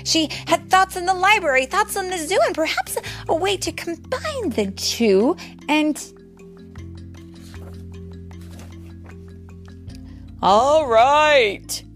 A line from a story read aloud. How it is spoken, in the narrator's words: cried the mayor